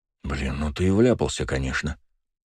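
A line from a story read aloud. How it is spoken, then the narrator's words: Muttered. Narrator (Russian): пробормотал Леня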